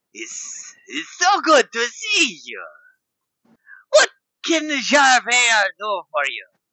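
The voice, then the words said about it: Character voice with an accent. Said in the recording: “I'm going to have this accent, like, in the middle”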